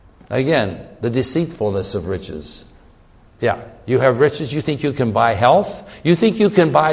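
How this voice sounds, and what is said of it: Usual voice. Nothing is said of it.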